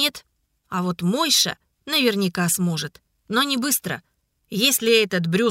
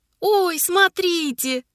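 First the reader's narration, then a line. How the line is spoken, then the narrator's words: Sudden childlike joyful exclamation. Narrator (Russian): Вдруг по-детски радостно воскликнул Ларик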